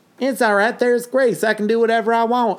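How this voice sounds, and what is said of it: Put-on Southern accent. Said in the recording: “I don't know why he has a southern accent.”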